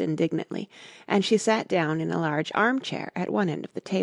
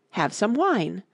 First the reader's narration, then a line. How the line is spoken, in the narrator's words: the March Hare said, in an encouraging tone